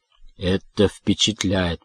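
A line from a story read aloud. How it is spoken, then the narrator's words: Mutter from behind. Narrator (Russian): пробормотал Дек у меня за спиной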